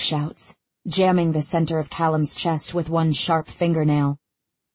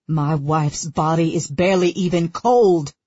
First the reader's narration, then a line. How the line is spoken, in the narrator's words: he roars